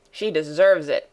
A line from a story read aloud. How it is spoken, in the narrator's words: growled Peter